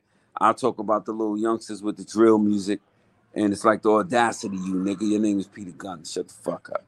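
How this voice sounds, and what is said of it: Strong New York accent. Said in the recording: “you got that real New Yorkish right there just came out there, man. That we heard that New York accent.”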